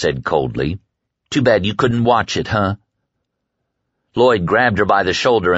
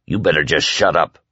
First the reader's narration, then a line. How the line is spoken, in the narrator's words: Whitney said gruffly